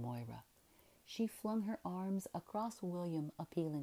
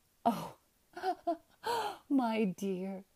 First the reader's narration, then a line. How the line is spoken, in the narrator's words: Isabel laughed